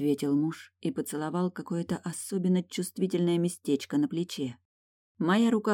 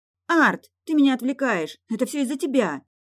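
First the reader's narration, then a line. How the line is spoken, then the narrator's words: Sudden outburst. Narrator (Russian): Едва выкрикнула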